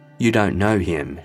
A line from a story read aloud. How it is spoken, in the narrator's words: she said